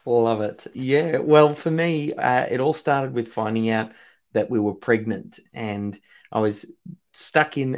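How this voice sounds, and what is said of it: Australian accent. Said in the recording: “accent because he's coming in from Australia, Melbourne, Australia. I love it. Love the accent.”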